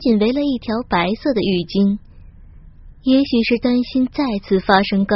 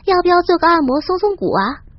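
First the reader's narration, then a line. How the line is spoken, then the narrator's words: Cheerful giggling. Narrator (Chinese): 小娟笑嘻嘻的对我说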